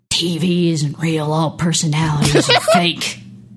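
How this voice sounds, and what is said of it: Stoned-sounding imitation of another person's voice. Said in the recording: “very fucking stoned Matthew McConaughey ... am I doing the voice”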